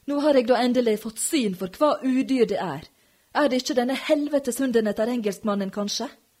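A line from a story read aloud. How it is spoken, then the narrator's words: Screaming. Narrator (Norwegian): skrek han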